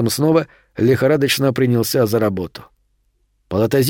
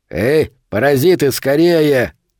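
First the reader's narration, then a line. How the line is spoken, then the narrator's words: Barking male voice. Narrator (Russian): рявкнул мужской голос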